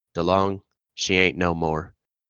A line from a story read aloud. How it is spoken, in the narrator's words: one of the sailors stuck his head in the door and quietly said